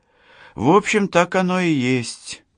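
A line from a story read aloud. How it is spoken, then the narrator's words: Sad sigh. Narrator (Russian): грустно вздохнула Лана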